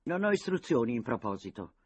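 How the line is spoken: Military tone. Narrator (Italian): aveva replicato Cele sull'attenti, con tono militaresco

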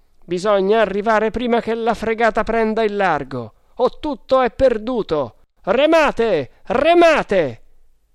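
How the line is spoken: Triumphant shout. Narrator (Italian): uno dei Tugs gettò un grido di trionfo

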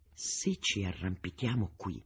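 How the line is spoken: Quiet voice. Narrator (Italian): disse Boca sottovoce

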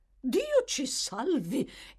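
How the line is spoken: Startled housekeeper exclaiming. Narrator (Italian): esclamò la governante, trasalendo

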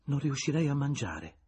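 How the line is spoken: Plain. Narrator (Italian): disse Julien

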